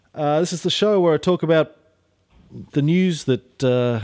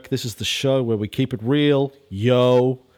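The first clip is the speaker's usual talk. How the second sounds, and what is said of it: Imitates a TV character's voice. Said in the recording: “my impersonation of Jesse from Breaking Bad”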